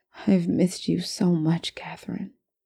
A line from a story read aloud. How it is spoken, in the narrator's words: he whispered finally